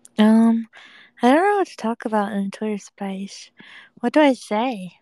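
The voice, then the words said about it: Weak, strained sick-sounding voice. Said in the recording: “I think I'm getting sick. ... my voice is so dead.”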